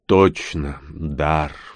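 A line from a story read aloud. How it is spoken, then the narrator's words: Sighing. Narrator (Russian): вздохнул Рон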